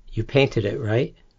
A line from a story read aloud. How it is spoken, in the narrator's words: Maslow whispers